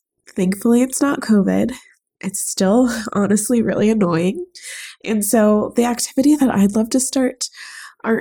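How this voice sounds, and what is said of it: Congested, stuffy-nosed voice. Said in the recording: “You can probably hear from my voice that I'm really stopped up right now. I've got a summer cold.”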